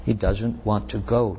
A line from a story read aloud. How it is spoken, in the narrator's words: Joyce whispered